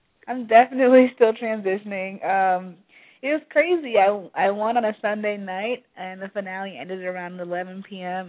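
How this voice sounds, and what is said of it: Congested, stuffed-up voice. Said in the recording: “I'm getting over a cold, so sorry if I sound stuffed up.”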